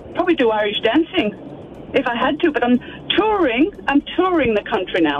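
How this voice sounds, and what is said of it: Irish accent, possibly put on. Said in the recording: “the Irish accent specialist... Do you think it's put on?... I detected a little bit of a glitch maybe in ... accent”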